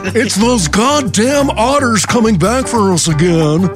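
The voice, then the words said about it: Panicked rich person character voice. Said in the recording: “my impression of a rich person running from otters”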